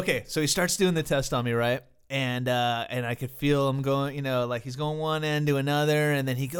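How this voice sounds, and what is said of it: Usual voice. Nothing is said of it.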